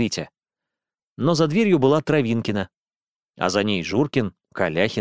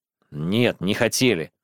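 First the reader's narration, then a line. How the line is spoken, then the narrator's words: Snorting. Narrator (Russian): хмыкнул Витя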